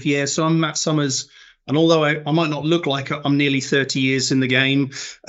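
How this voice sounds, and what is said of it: East London accent. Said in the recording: “as you can tell from my accent, I'm not from the north at all ... I'm from East London”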